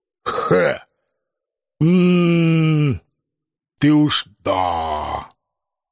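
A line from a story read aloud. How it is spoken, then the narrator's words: Skeptical snort. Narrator (Russian): Скептически хмыкнул дед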